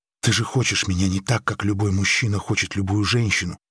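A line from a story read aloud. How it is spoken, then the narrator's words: Stubborn whisper. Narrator (Russian): упрямо прошептала Мария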